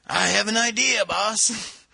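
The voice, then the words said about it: Puts on an odd accent. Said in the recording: “I don't know where that accent came from, by the way.”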